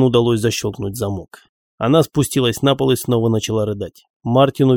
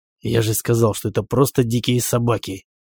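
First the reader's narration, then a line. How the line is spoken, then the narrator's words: Irritated whisper. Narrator (Russian): раздраженно прошептал Мартин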